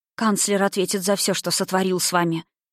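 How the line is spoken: Hoarse, rough. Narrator (Russian): произнесла она хрипло, грубо

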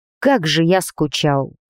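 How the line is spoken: Muffled mumble, heavy sighing. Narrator (Russian): пробормотал глухо парень, уткнувшись носом мне в макушку и шумно вздыхая

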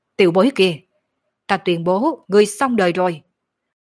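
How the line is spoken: Said fiercely. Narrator (Vietnamese): hùng dữ nói

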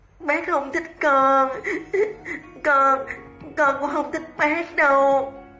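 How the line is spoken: Tearful child sobbing. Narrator (Vietnamese): Thiền Thiền đột nhiên đỏ đỏ cái mũi, bên trong đầy nước mắt, mang theo khóc nức nở nói

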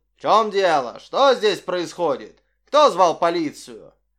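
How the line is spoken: Menacing question. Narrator (Russian): грозно спросил

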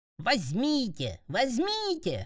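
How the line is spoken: Shrieking. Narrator (Russian): визжали

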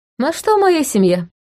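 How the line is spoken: Cheerful. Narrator (Russian): весело пожал плечами он

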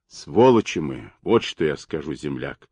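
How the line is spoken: Hoarse half-whisper. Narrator (Russian): снова раздался хрипловатый полушепот первого

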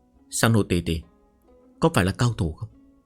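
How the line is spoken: Soft, childlike. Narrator (Vietnamese): Hàn Nguyên Học khuôn mặt ngây thơ như trẻ con, khẽ nói

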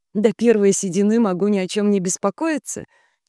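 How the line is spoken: Forced laugh. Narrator (Russian): через силу рассмеялась Диана

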